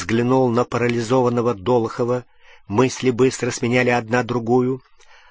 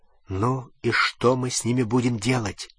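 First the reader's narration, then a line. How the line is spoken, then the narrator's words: Quiet whisper. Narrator (Russian): тихо прошептал в темноте Рон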